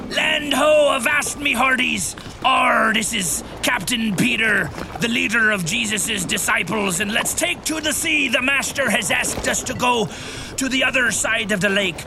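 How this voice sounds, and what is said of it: Pirate character voice. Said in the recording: “why are you talking like a pirate?”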